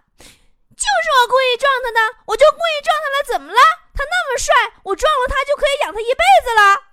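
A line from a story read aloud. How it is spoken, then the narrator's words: Defiant young woman shouting. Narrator (Chinese): 那个撞我的妹子啊，在走廊里对她爸爸大喊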